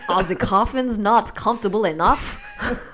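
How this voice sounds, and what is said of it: Dracula-style put-on accent. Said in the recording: “I don't know what accent that was. That wasn't quite... Do you think that was Dracula-esque?”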